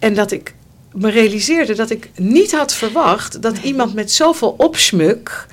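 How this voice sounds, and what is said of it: Usual voice. Nothing is said of it.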